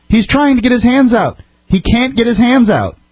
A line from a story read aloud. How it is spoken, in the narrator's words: Horrified, his friend Sandra screamed at the officers